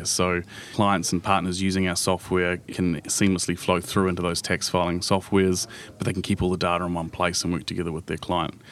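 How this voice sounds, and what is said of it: Non-American accent. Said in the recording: “my biggest challenge coming to the US is probably my accent”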